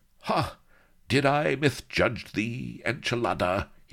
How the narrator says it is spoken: he croaked

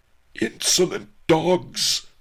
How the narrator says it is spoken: I roared

